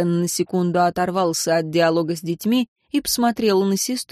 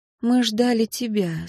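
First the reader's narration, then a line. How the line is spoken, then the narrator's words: Soft. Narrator (Russian): сказала Анна мягко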